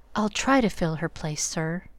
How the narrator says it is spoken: made Joe whisper back

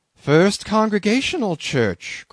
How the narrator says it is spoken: cried Bildad

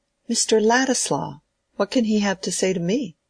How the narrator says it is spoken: exclaimed, in a tone of pleased surprise

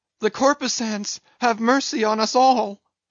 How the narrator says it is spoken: immediately shifting his tone, he cried

